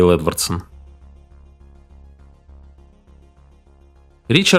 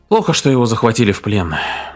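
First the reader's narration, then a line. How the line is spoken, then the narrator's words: Sighing. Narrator (Russian): вздохнул Эдвардсон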